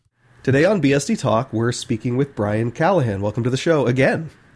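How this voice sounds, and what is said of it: Congested voice from a cold. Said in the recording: “my voice sounds a little funny. I had a pretty bad cold, I still do.”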